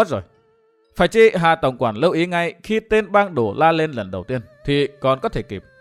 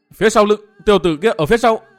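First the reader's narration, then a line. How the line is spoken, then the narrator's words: Shouted. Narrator (Vietnamese): Bang đồ tiếp hét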